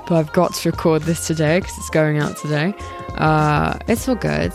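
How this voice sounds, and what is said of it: Strained, losing voice. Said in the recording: “Oh god, my throat ... my voice sounds a bit odd, it's because I'm like kind of losing it ... It's just like burning and very painful”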